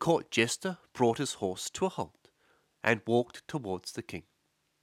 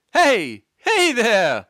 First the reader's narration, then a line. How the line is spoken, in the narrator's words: he called out